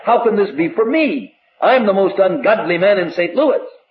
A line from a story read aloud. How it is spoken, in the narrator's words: he cried